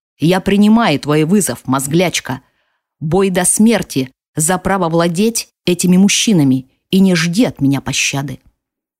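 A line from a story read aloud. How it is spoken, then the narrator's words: Enraged growl. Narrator (Russian): зарычала взбешенная Фаэлина, прорычала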